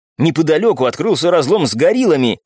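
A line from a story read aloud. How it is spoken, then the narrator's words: Young man's exclamation. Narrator (Russian): воскликнул парень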